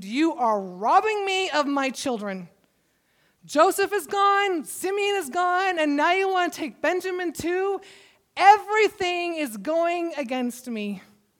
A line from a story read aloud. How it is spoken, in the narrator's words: were terrified when they saw the bags of money exclaimed